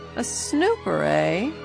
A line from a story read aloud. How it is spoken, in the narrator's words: he sneered